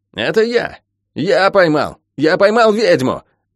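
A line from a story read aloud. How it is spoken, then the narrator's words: Shrill shout. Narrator (Russian): визгливо выкрикнул Мюррей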